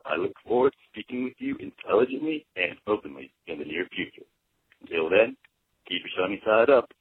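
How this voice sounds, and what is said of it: Impression of Jonathan Penner. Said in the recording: “we have a pretty decent Penner impression ... you do a terrible Penner imitation”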